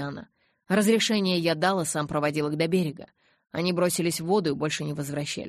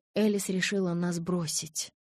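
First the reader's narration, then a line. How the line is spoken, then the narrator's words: Whispered. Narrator (Russian): прошептал Карлайл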